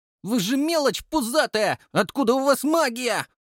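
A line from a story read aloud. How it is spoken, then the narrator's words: Boy shouting. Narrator (Russian): крикнул пацан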